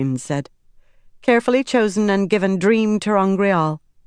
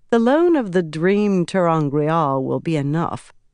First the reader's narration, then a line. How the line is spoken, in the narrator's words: Egwene said dryly